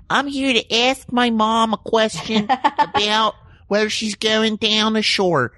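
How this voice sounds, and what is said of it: Put-on Philadelphia accent. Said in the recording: “I had a Philly accent when I was a kid.”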